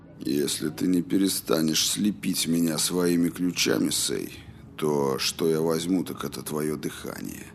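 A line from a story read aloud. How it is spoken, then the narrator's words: Through gritted teeth. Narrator (Russian): процедил Роланд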